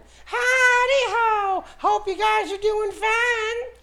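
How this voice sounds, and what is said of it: Southern cartoon character voice. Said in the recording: “when you want to do Mr. Hanky, then you got to make it a little more southern”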